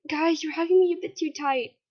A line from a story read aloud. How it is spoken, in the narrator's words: cried out